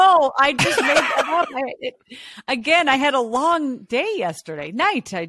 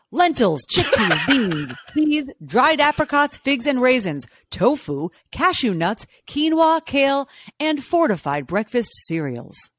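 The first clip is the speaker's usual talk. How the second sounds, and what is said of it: Official newsreader-style voice. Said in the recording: “I love the official news voice there. Is that how they taught you how to do it in college?”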